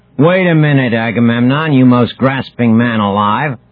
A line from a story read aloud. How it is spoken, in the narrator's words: who is three sheets to the wind, Achilles had shouted